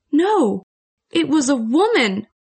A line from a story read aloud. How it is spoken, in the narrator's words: cried